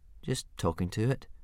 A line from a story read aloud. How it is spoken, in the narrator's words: mumbled Hiccup, very embarrassed